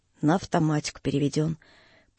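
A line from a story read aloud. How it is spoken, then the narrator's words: Calm, lazy, offhand. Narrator (Russian): Лаврюха спокойно, с некоторой даже ленцой, словно речь шла о чем-то незаслуживающем внимания, заключил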